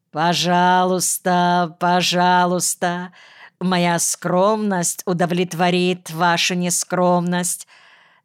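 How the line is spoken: Singsong. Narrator (Russian): сказал нараспев

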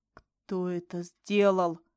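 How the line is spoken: Angry hoarse rasp. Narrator (Russian): прохрипел, чувствуя, как злость заполняет меня

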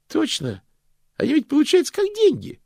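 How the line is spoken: Cheerful chiming in. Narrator (Russian): бодро подхватил Стэнли

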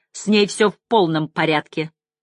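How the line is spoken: Irritated. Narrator (Russian): раздраженно

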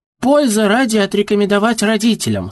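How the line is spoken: Cheerful, then laughing. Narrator (Russian): сказала Мариана и весело расхохоталась

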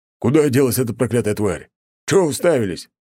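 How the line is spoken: Bellowed. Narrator (Russian): гаркнул он

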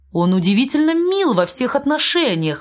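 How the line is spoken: Exclamation. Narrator (Russian): воскликнул граф

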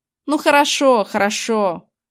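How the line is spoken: Irritated grumble. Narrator (Russian): пробурчал он раздраженно

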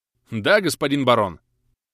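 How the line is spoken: Barked reply. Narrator (Russian): гаркнул в ответ

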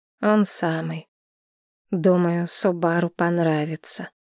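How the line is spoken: Slow. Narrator (Russian): медленно ответил мужчина

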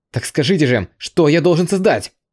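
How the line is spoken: Loud exasperated shout. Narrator (Russian): Не выдержав, громко прокричал Вид

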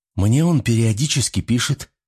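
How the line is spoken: Timid, surprised. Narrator (Russian): робко и с удивлением заметила Мария

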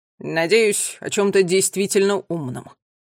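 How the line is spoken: Grumble. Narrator (Russian): проворчала Тила

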